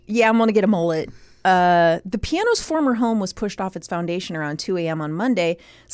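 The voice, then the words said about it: Speaks in a put-on accent. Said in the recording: “This accent?”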